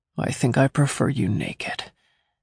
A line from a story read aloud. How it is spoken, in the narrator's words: he murmured against my neck